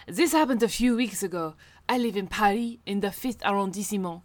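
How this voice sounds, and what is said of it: Put-on French accent. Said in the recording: “I'm going to read this in ... French accent.”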